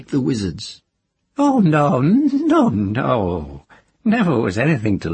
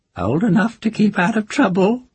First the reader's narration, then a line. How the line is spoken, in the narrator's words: voice in the darkness said, with a hint of laughter in it